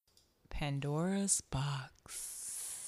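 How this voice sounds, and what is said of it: Sultry, seductive voice. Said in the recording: “your voice is so lusty. That nigga need to be a phone sex operator.”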